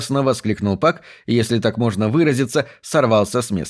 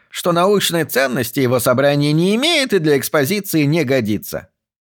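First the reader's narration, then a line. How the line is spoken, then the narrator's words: Contemptuous snort. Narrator (Russian): презрительно фыркнул Пак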